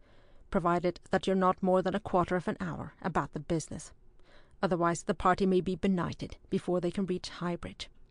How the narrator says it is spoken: he replied a trifle stiffly

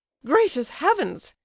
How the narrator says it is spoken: exclaimed Lizabetha Prokofievna

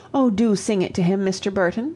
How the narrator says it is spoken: pleaded Miss Mayton

